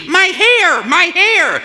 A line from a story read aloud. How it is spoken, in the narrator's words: A woman is shrieking